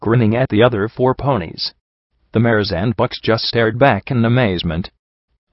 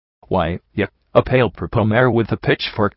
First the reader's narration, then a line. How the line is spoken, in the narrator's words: QT Mark stammered